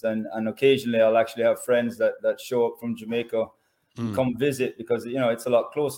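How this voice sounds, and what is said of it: Jamaican accent. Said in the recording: “you've obviously still got the Jamaican accent ... my accent has come back a little bit stronger”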